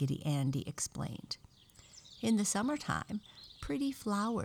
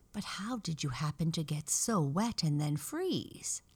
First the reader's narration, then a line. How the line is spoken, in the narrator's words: asked Raggedy Ann